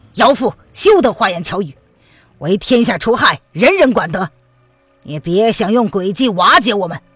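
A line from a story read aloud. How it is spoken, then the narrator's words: Stern, harsh. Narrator (Chinese): 范定峰厉声的道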